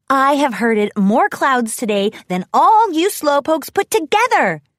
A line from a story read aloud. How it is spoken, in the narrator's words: Rainbow Dash shouted at the other Pegasi